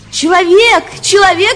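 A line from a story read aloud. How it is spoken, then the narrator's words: Shout. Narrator (Russian): закричала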